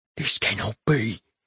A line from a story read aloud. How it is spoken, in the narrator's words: he whispered